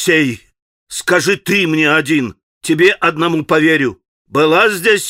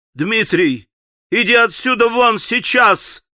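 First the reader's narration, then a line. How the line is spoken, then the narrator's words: Commanding shout. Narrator (Russian): властно крикнул Алеша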